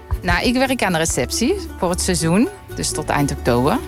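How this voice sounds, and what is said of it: Brabant Dutch regional accent. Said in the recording (Dutch): “jij hebt helemaal geen Frans tongval ... Ik hou mijn Brabants accent. Ja, dat blijft gewoon.”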